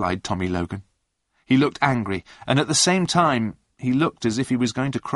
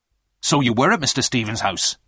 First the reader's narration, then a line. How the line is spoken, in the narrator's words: the inspector said quickly